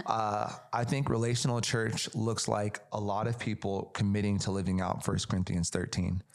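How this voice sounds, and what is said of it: Worn-out, fading voice. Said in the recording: “I'm losing my voice.”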